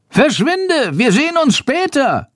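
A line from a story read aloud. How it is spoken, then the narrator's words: Calling out. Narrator (German): ruft Chandor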